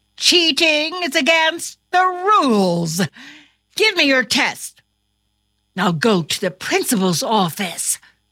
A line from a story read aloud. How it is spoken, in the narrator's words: exclaimed his teacher